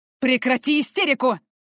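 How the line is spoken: Barked. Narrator (Russian): рявкнул мужчина

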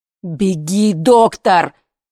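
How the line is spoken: Shout. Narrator (Russian): крикнул Сережа

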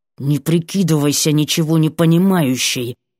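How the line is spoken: Hissed. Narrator (Russian): прошипел

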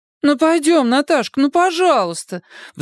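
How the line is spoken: Pleading. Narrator (Russian): взмолилась подруга

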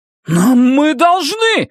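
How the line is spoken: Shout. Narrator (Russian): закричал Эдди

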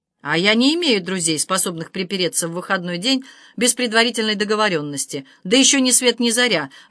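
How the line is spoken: Barked. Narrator (Russian): рявкнул полковник

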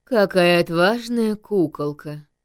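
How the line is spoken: Low hoarse bandit voice. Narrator (Russian): проговорил низким хриплым голосом главный бандит

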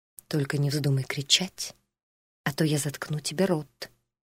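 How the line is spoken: Muttering. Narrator (Russian): пробормотал он

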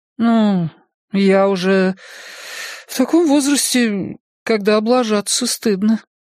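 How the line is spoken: Uncertain remark. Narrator (Russian): неуверенно заметила она

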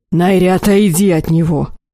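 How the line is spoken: Barked shout. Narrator (Russian): рявкнул Алих

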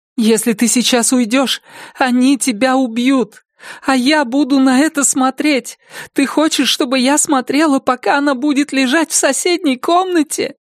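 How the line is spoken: Speaking through sobs. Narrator (Russian): Слова едва прорывались сквозь всхлипывание

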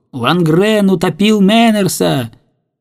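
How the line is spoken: Boys shouting after someone. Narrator (Russian): Мальчишки, завидев его, кричали вдогонку

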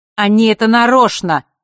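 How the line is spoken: Angry shout. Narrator (Russian): зло крикнул Рино

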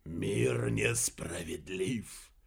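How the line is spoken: Whispered. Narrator (Russian): прошептал он

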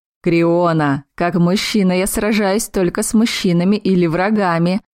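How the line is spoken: Laughing. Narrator (Russian): рассмеялся сотник

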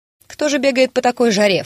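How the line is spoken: Stout lady snorting. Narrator (Russian): фыркнула не в меру полная дама

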